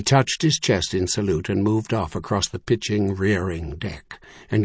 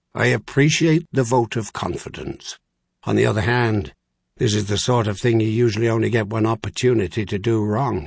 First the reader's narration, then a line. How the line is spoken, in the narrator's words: Yearly pointed out in a dry tone